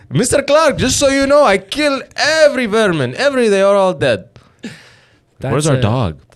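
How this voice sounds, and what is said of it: Imitates another person's accented voice. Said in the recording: “Am I doing a good accent? ... your dad accent”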